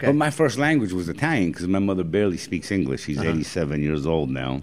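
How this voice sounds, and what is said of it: New York accent. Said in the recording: “You got a New York accent, obviously. Okay. You sound like a New Yorker,”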